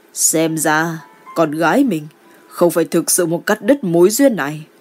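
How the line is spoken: Quiet smiling mutter. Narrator (Vietnamese): Ninh Quang Diệu mỉm cười, nhỏ tiếng lẩm bẩm

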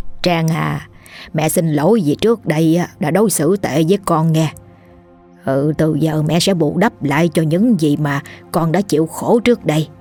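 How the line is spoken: Sad. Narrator (Vietnamese): Bà nói bằng chất giọng buồn buồn

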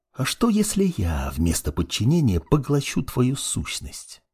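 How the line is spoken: Dark mage's whisper. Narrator (Russian): Продолжал шептать темный маг

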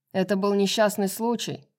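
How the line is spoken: Shout over din, prince. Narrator (Russian): Перекрывая гул и грохот, крикнул мятежникам принц

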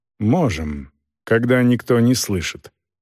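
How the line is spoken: Dry. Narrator (Russian): сухо сказал кавалер

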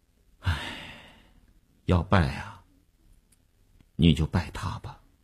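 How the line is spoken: Helpless sigh. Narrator (Chinese): 那个钢琴师一声无奈的叹息

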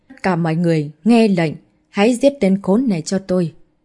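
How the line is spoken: Screaming. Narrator (Vietnamese): Thiên Ảnh Kiện gào lên

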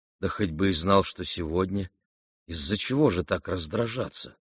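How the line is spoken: Quiet, embarrassed prince. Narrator (Russian): тихо промолвил князь в смущении

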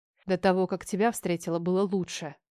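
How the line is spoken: Hissed. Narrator (Russian): Прошипела

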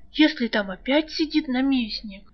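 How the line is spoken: Terrified whisper. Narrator (Russian): в ужасе прошептала рыска

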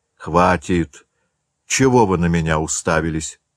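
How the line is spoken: Strained, uneasy. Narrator (Russian): сказал К, преодолевая какое-то неприятное ощущение

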